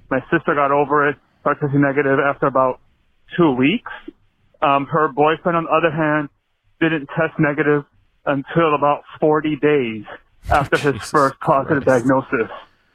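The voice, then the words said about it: Breathless, out-of-breath speech. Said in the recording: “Sorry, I'm out of breath. I'm running through the streets of New York to get to work.”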